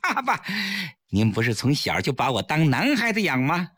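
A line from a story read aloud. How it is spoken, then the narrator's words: Smiling. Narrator (Chinese): 崔月笑着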